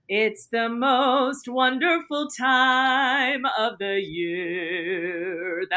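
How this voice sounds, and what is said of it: Imitates another person's singing voice. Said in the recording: “That's my Bing Crosby impression.”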